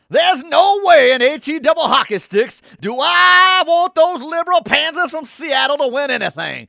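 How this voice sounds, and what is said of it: Exaggerated down-south Alabama accent. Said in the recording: “in my best SEC fan accent ... got to be a down south Bama kind of that kind of right. accent ... That was Foghorn Leghorn”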